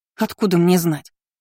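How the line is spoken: Irritated. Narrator (Russian): Раздраженно Шарлотта

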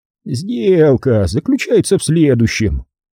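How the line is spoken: Ingratiating patient, as to child. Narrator (Russian): Голос продюсера зазвучал вкрадчиво и терпеливо, словно он объяснял что-то маленькому ребенку

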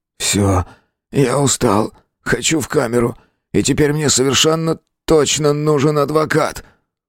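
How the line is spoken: Hoarse wheeze. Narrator (Russian): Он остолбенел, сделавшись бледным до синевы, и прохрипел

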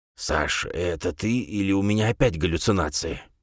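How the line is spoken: Old man's whispered question. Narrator (Russian): шепотом спросил дед

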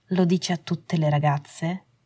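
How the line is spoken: Sarcastically sweet. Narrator (Italian): chiese, in tono sarcasticamente dolce

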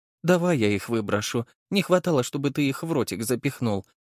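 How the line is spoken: Affectionate. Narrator (Russian): ласково сказала она

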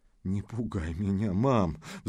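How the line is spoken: Pleading. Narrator (Russian): взмолилась Вероника

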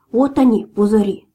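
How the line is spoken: Plain. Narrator (Russian): сказал Буль-Буль

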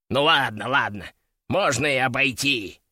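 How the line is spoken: Grumbling. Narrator (Russian): проворчал

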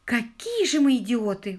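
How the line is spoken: Inspired exclamation. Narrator (Russian): вдохновенно воскликнула Анжела

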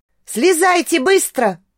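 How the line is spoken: Shouting. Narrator (Russian): крикнула им Лоска

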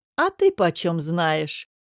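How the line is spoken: Mocking question. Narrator (Russian): насмешливо спросил Намир

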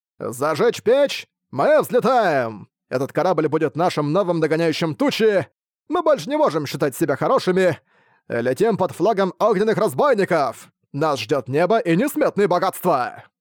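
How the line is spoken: Shouted. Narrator (Russian): закричал Фан Юньсяо

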